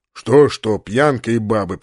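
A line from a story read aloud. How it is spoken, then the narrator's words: Grumbling. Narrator (Russian): проворчал полубой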